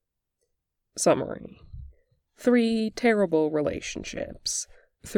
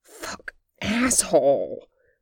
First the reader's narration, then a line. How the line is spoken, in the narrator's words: hissed, shockwaves of pleasure shot down his spine